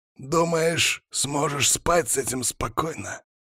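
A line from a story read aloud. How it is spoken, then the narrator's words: Hoarse question. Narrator (Russian): Хрипло поинтересовался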